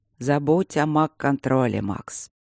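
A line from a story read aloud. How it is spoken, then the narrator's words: Gentle tone, hidden steel. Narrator (Russian): С улыбкой, очень ласковым тоном, за которым слышалась сталь, посоветовал ректор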